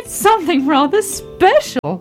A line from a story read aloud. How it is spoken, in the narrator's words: laughed Daddy Ted